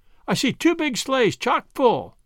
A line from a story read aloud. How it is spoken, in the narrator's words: shouted Seth